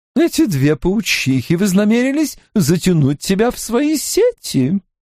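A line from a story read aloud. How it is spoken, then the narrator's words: Older woman laughing. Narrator (Russian): Старшая женщина рассмеялась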